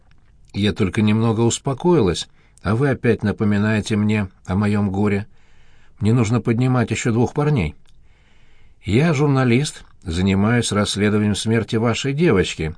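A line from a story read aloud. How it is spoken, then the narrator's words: Plain. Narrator (Russian): сказала Катя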